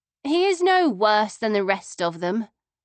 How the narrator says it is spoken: she said in a weary voice

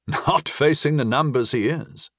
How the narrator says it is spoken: Slagur chuckled

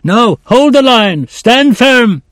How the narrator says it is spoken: he screamed at them

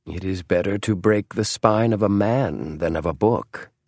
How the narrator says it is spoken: murmured James

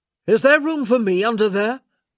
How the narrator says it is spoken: he called out over the rain

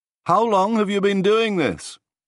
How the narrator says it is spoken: I had to shout to be heard over the engine

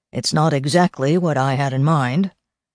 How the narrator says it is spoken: Walter said dryly

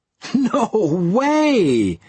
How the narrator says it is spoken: laughed

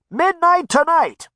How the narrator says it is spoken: a voice shouted through a megaphone

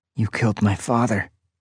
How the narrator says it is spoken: I whispered

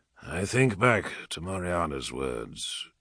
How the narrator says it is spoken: said softly

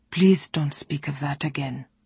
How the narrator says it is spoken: he said gently

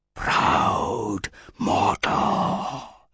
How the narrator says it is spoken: hissed a sibilant voice through the veils of agony

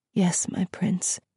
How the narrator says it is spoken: she said softly

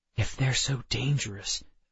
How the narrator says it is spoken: I whispered

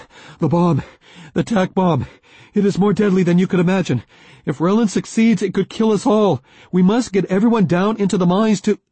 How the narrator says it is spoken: said breathlessly

